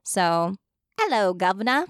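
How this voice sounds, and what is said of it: Weak put-on British accent. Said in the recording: “I'm not good at accents ... I'd probably do a British accent because that's the only one I can do slightly okay.”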